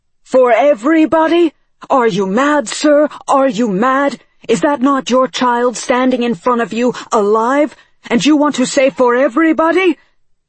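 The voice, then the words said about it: Shouting, sharp accented voice. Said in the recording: “Nehru's father shouted, his accent sharpening his words.”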